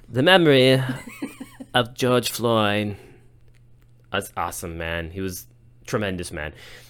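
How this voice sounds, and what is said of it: Poor impression, sounds like a hippie. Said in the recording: “You sound like a hippie. ... it's a terrible impression.”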